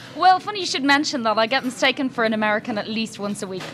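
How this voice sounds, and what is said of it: Irish accent. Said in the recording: “that is real accent, isn't it? You're not just one of those people pretending to come to America to reconnect with their Irish ancestry”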